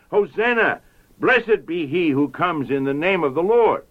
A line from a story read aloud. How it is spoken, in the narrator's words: those who went before and those who followed cried out